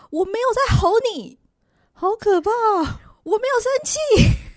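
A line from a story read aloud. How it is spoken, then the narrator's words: Yelling angrily. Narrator (Chinese): 他好像吼的越来越频繁了，而且他会直接拍桌说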